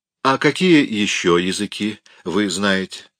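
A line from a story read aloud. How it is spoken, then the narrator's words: Plain. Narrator (Russian): спросила она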